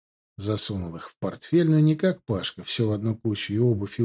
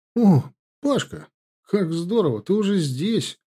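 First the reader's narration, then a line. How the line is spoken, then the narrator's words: Delighted exclamation. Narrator (Russian): воскликнул он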